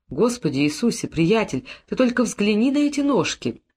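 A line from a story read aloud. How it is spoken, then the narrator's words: Whisper. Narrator (Russian): один из ординарцев шепнул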